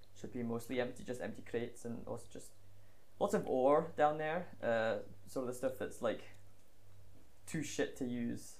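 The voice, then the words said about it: Put-on Scottish accent. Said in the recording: “the accent change. The process they become Scottish.”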